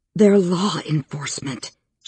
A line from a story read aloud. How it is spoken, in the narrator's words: she whispered